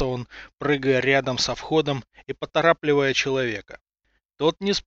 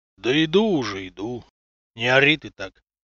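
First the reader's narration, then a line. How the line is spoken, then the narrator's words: Deep bass voice. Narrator (Russian): пробасил путник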